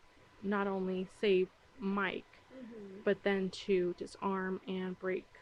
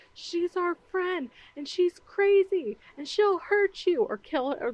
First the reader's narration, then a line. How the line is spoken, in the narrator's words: Dustin yells